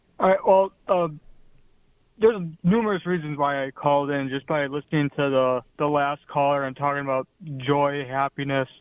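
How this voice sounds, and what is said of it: Midwestern American accent. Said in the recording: “as you can tell from my accent, I'm not from the South. I'm from the Midwest”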